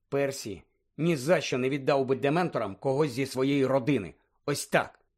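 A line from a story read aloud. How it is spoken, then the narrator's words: Stern. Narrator (Ukrainian): суворо сказала Герміона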